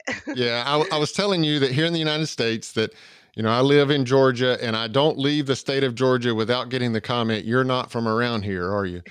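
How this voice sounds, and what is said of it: American Southern accent. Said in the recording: “my southern accent doesn't travel far outside of the state of Georgia”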